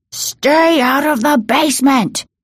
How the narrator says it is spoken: he bellowed in a voice they'd never heard before

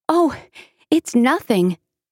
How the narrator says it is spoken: Rapunzel replied cheerfully

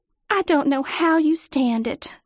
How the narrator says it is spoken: Sally sighed

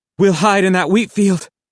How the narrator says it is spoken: wheezed

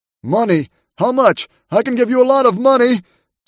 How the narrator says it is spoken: John sputtered, tears dripping down his fat cheeks

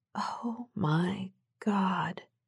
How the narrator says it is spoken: she whispered

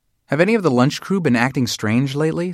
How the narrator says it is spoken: said Natalie

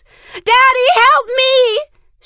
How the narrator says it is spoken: screamed again, her voice more high-pitched and frantic

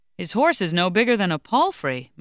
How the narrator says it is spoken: Marie-Joseph exclaimed

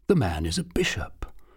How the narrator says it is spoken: murmured

